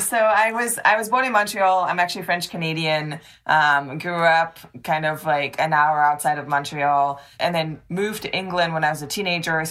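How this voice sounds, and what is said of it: French Canadian British accent. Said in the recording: “if you're wondering what this weird accent is, that's what it is. It's like Canadian British. ... French Canadian British.”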